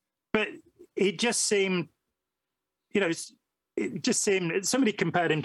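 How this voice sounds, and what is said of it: Usual voice. Nothing is said of it.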